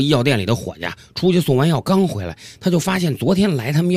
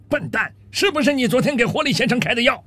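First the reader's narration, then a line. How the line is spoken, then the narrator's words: Very angry shout. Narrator (Chinese): 非常生气地冲他喊道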